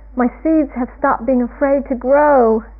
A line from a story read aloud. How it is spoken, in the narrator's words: shouted Toad